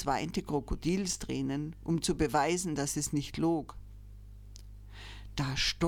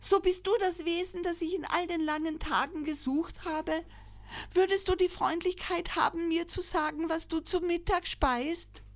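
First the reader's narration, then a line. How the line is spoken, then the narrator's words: Joyful call. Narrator (German): rief freudig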